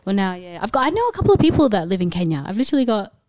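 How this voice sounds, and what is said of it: Australian accent. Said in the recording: “I couldn't tell by my accent. I'm from Australia. ... We're from Melbourne, Australia.”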